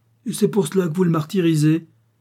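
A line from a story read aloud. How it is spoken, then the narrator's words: Exclaiming. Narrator (French): s'écria Victoire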